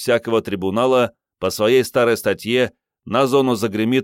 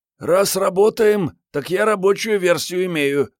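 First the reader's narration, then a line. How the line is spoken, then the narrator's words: Grumbling young woman. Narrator (Russian): проворчала девушка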